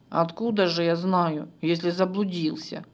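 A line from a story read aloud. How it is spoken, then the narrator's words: Dragon snorting. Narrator (Russian): фыркнул дракон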